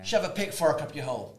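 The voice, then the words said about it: Put-on Irish accent. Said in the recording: “That's my Irish accent.”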